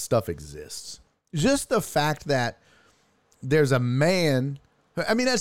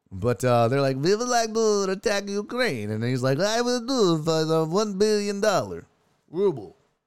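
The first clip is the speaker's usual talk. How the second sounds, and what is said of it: Terrible put-on Russian accent. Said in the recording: “It's a terrible Russian accent. I know. Don't judge me on my impersonations”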